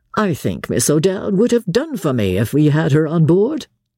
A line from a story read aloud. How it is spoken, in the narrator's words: he said laughingly